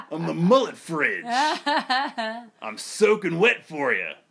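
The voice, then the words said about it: Deep fat DJ-style character voice. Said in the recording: “this is like a fat DJ voice.”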